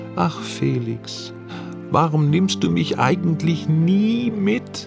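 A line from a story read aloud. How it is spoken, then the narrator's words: Wistful murmur. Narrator (German): Sophie sehnsüchtig murmelte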